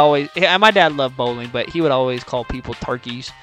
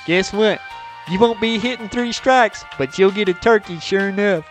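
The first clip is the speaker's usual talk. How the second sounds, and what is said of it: Imitates another person's voice. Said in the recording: “That's my impersonation of my dad.”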